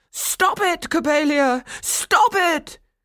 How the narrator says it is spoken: Coppelius cried

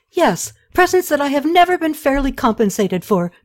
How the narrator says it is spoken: Tušratta exclaimed

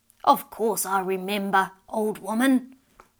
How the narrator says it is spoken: the old man gruffly replied

